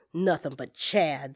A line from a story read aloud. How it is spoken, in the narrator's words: he muttered